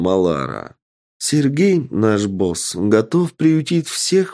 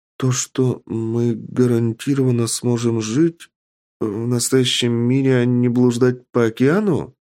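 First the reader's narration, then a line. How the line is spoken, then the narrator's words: Uncertain reply. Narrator (Russian): неуверенно ответила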